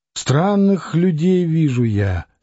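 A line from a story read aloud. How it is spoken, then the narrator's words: Sighing. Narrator (Russian): сказала она, вздохнув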